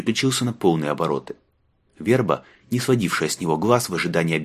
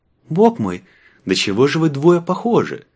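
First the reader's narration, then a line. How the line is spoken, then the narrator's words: Joyful chirping. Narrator (Russian): радостно прощебетал он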